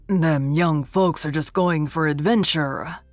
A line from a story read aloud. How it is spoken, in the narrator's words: growled Nathan Crawford